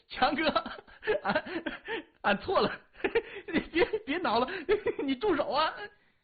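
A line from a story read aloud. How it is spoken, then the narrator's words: Laughing. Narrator (Chinese): 笑着说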